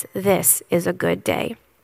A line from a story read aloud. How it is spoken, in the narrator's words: Jesus gently says